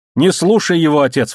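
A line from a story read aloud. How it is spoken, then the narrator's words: Exclamation. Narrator (Russian): воскликнул Марзак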